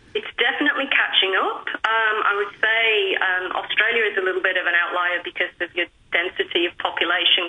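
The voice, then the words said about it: Non-native English accent. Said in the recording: “I can tell by your accent that you're not a native”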